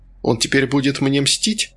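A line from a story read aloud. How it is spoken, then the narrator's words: Giggling. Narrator (Russian): Кондрашкина хихикнула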